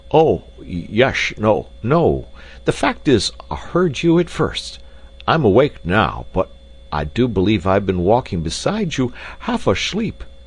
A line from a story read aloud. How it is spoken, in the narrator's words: stammered Jacob, with such a doleful, bewildered look